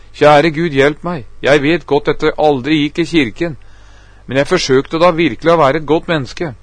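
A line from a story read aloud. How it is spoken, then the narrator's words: Sobbing desperate exclamation. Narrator (Norwegian): I min fortvilelse begynte jeg å hulke høyt, og jeg utbrøt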